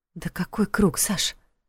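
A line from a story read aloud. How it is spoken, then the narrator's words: Frightened mumble. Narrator (Russian): испуганно пробормотала Лиля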